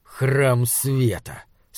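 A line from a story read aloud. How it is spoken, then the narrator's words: Smirking snort. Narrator (Russian): сказал наконец Джандра Легели и то ли усмехнулся, то ли фыркнул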